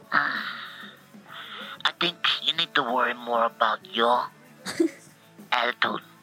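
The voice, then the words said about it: Put-on Albanian accent. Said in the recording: “This sounds totally like Mother Teresa. ... Sounds definitely like an Albanian accent.”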